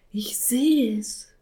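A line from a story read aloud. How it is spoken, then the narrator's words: Small cat whispering. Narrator (German): flüsterte der kleine Kater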